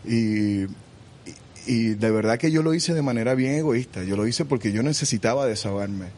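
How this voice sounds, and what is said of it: Caribbean Spanish accent. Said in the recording (Spanish): “el acento de Ricky Martin y también con la pronunciación de algunas palabras ... las características del español caribeño ... convierte las letras C o Z en una S”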